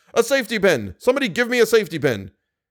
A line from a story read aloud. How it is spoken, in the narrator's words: Moncharmin shouted